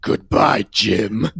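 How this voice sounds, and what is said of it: Deep character voice. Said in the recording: “deep voice”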